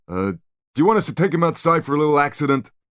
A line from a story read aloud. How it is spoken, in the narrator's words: Spyro laughed, a short, nasty bark